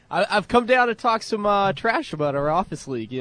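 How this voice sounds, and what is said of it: Boston accent. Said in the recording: “our guy with the Boston accent”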